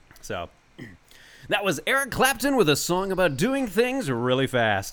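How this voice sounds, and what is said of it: Radio announcer voice. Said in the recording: “I wanted to just do, like, a radio announcer voice.”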